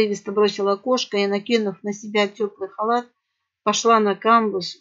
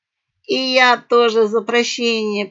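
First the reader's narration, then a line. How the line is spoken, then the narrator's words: Cackling parrot, laughing. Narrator (Russian): продолжая хохотать, прокликотала попугаиха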